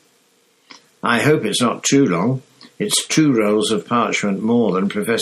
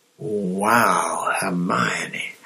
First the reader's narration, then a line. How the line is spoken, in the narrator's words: Harry whispered